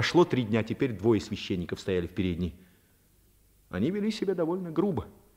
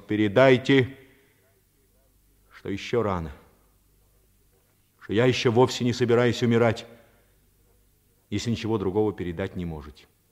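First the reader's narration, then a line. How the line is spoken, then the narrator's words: Spoken loudly. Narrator (Russian): Паганини громко произнес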